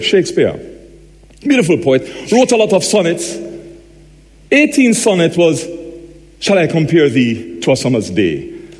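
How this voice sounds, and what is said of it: Strong Jamaican accent. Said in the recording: “by now you should be able to work out from my accent that I'm Jamaican ... I have a very strong accent.”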